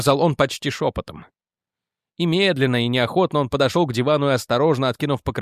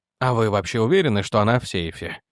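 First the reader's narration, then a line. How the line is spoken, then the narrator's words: Plain. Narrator (Russian): спросил Торндайк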